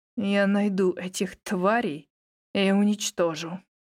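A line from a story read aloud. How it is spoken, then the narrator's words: Through gritted teeth. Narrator (Russian): процедил дракон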